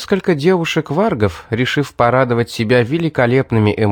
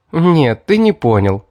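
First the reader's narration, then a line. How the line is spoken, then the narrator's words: Laughing. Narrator (Russian): смеясь сказала Кара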